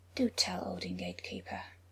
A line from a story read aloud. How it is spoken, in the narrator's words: said softly